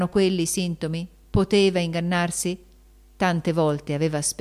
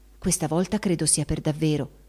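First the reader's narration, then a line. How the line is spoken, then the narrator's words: Confidential whisper. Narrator (Italian): sussurrò alla cognata in confidenza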